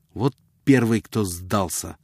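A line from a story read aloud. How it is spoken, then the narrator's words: Irritated remark. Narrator (Russian): заметил он раздраженно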